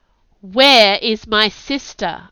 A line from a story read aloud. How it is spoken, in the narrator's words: yelled